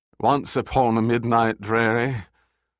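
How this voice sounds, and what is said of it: Drunken slurred British accent. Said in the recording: “drunkenly intoned in a slurred British accent”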